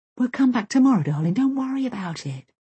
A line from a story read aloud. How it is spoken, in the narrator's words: Kent says soothingly